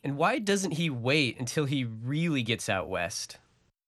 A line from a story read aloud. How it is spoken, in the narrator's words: The traveled Easterner laughed